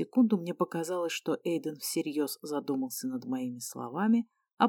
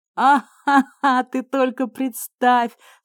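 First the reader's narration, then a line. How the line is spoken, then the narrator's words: Speaking through laughter. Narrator (Russian): сквозь смех говорил Эйден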